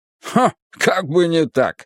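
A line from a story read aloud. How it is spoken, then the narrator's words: Chuckling. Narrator (Russian): хохотнул Галилей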